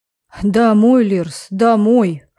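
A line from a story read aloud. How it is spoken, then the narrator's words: Snorting. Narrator (Russian): хмыкнул он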